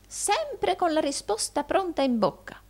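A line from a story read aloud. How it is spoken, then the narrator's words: Old man exclaiming. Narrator (Italian): esclamò il vecchio Arturo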